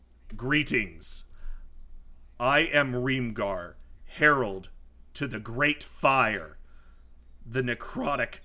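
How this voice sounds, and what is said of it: Booming character voice. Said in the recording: “in a booming voice”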